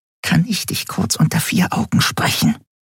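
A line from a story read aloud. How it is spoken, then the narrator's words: Whisper through clenched teeth. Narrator (German): flüsterte sie mit zusammengebissenen Zähnen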